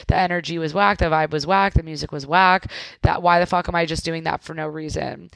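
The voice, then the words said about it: Very fast speech. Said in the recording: “I'm talking so fast,”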